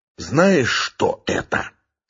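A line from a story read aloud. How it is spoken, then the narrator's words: Menacing whisper. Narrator (Russian): Шепот полковника был страшен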